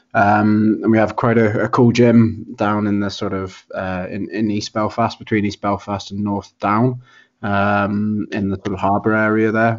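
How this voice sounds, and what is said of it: Regional accent, not from Belfast. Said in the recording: “I'm obviously not from Belfast. You probably guessed that from my accent.”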